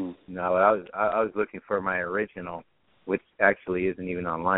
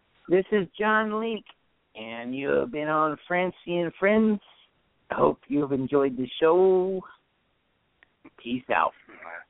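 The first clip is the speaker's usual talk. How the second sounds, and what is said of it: Imitates another person's voice. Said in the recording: “my impression of you”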